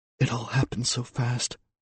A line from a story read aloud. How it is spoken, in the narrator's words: she whispered